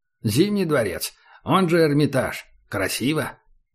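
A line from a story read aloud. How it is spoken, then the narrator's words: Wry snort. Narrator (Russian): Убер хмыкнул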